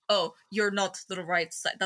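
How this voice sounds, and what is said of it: Put-on Russian-sounding accent. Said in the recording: “I can't do a German accent, but like ... That's Russian.”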